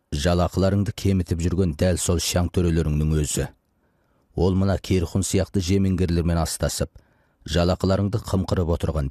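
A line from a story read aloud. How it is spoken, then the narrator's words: Plain. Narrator (Kazakh): деді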